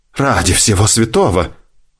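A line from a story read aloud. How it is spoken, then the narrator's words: Doctor exclaiming. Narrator (Russian): воскликнул врач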